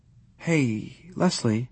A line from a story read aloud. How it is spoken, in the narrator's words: he called softly